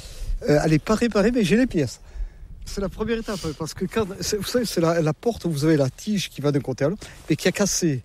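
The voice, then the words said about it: Southwestern French regional accent. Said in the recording (French): “comme vous l'entendez, je ne suis pas de la région ... Avec mon accent, je ne suis pas du nord de la Loire, hein, non ? Je suis des Landes”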